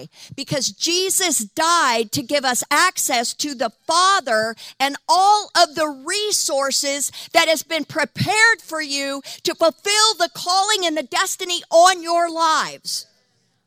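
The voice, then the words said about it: Yelling, passionate loud preaching. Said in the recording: “Sorry, I'm yelling, but I'm passionate about this.”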